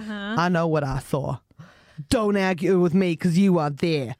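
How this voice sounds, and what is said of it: Put-on Boston American accent. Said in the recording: “Which accent is that? ... Boston, right? ... He's Boston”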